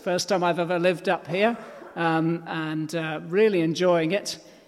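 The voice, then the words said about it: Non-Yorkshire English accent. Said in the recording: “You probably spotted I don't come from Yorkshire from my accent.”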